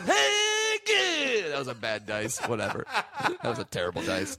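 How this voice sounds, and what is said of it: Imitates another person's voice. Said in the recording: “do an impression ... I'm doing Jay Moore doing dice.”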